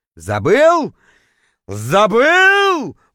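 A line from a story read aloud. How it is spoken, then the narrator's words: Roaring, howling. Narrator (Russian): взревел, точнее, даже завыл я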